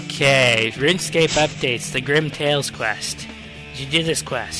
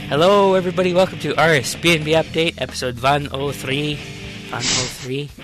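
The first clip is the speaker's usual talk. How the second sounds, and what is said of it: Poor put-on German accent, Scandinavian-sounding. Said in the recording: “That's my German accent... That wasn't a very good German accent... It sounded more Scandinavian to me.”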